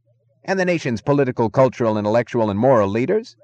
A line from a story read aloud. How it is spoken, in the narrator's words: the announcer was yelling into the microphone